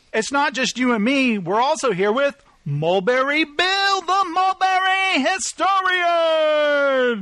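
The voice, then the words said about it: Shouting. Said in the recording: “stop shouting”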